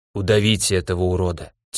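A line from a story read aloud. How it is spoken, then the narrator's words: Quiet unrecognizable rasp. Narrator (Russian): тихо прохрипел я, даже не узнавая собственного голоса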